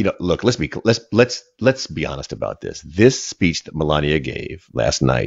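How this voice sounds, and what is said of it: Usual voice. Nothing is said of it.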